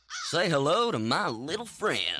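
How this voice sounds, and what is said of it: Deliberately bad movie-character impression. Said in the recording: “Terrible Impersonations.”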